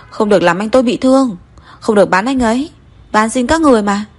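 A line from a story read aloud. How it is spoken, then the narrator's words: Hoarse screaming. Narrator (Vietnamese): Cố Thiên Giác hét khàn cả giọng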